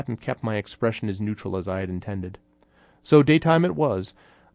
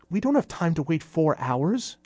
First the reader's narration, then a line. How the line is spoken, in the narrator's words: Elsbin broke in urgently